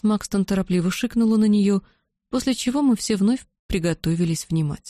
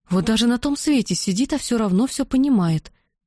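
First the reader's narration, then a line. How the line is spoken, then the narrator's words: Admiring exclamation. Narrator (Russian): восхищенно воскликнула Бетси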